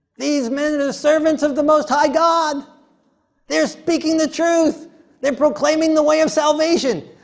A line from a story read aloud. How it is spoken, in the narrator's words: she's shouting